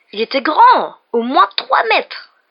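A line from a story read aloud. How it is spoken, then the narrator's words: Exclaiming. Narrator (French): s'exclama-t-il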